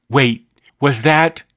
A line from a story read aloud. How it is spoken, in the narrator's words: slowly said